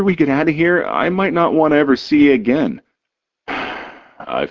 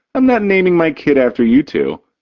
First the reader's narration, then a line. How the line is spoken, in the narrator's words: Jiggs laughs